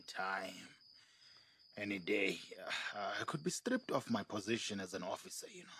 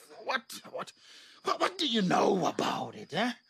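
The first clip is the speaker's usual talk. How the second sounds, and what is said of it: Shouting angrily. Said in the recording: “why are you shouting at me, love? ... I'm so sorry for snapping and shouting at you.”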